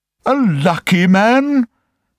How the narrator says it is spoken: cried the emperor

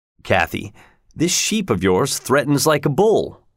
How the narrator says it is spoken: Heathcliff laughed

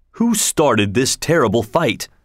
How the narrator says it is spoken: asked the prince

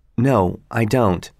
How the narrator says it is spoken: In a flat voice, said

